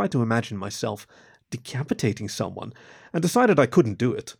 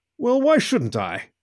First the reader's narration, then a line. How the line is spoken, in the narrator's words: he asked, his tone agitated